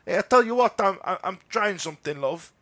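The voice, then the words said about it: Put-on Portuguese accent. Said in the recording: “That's my Portuguese accent. It's good, isn't it?”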